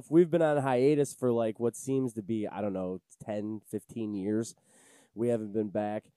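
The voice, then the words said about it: Sick-sounding voice. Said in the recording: “I've been sick. You can probably hear it in my voice.”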